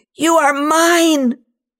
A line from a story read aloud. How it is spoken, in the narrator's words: she screams